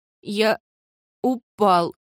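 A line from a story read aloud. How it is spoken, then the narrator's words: Trembling voice. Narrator (Russian): повторил он дрожащим голосом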